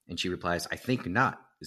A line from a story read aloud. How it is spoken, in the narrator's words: Zareen said just as firmly